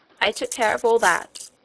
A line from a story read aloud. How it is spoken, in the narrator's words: answered the lady